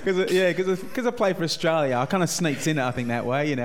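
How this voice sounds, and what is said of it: English accent. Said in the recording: “There's three Englishmen in a room here ... You're not fooling anyone, mate, with that accent.”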